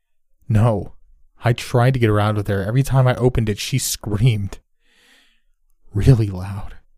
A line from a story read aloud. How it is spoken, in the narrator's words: he snapped